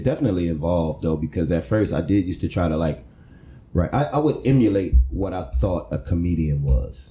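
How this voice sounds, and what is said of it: Dry, monotone delivery. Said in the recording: “you're dry, you're monotone”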